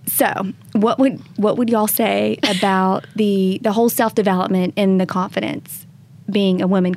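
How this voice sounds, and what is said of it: Southern American accent. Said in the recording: “I'm Southern... You still have a Southern accent.”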